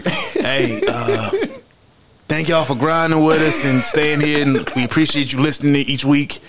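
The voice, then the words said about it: Imitates another person's voice. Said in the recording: “Is that your Benny impression? ... You sounded like Jimmy.”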